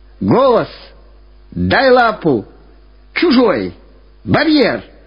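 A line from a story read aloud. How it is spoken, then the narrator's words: Constant shouting. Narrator (Russian): Все время кричал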